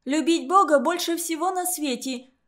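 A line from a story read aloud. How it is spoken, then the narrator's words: Sudden outburst. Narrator (Russian): выкрикнула вдруг Сабина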